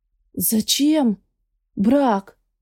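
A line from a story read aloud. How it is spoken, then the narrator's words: Hoarse voice. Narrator (Russian): сипло звучит мой голос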